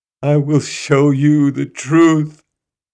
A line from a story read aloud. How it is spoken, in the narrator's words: he cried